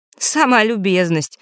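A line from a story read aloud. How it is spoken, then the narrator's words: Snort. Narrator (Russian): хмыкнул Фэш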